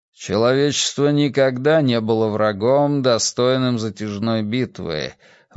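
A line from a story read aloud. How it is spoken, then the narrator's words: Grumbling to himself. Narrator (Russian): ворчал наедине с собой Зумуррудшах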